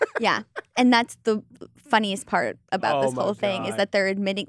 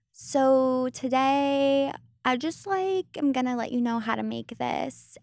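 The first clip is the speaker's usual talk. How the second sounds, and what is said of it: Mocking influencer vocal fry voice. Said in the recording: “Vocal Fry ... The influencers kind of do that thing where it's like”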